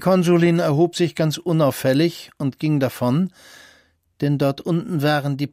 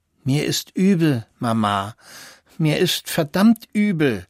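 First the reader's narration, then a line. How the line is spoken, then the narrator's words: Whimpering. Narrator (German): wimmerte Christian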